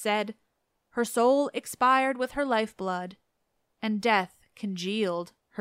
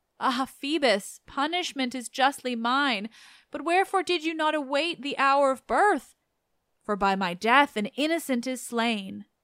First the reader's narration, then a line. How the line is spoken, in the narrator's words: she wailed